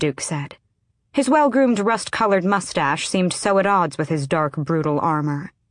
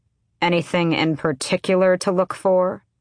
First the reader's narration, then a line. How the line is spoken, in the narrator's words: Manon said flatly, already bored